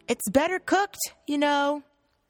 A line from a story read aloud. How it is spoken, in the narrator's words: She yelled